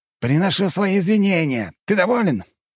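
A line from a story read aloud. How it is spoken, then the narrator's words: Shout. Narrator (Russian): крикнул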